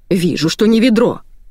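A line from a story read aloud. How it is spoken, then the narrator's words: Bark. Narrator (Russian): рявкнула Евгения Федоровна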